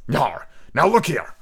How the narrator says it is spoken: said the captain

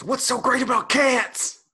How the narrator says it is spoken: Somebody shortly after yells

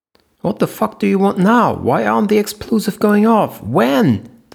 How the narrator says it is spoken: The president's shrill scream came over the phone

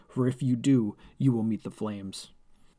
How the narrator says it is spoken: the giant man yelled

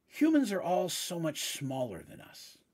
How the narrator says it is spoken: Brodo said with a sigh

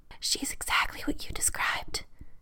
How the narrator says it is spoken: she whispers loudly

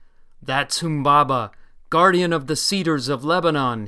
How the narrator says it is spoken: he cried

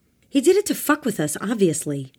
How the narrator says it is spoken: Ava shouted

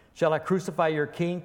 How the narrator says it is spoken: Pilate said

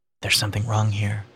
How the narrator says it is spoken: Garrod muttered

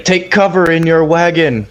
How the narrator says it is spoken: yelling at Shorey

